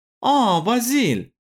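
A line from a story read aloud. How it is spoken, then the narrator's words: Exclamation. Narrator (Russian): воскликнула Магда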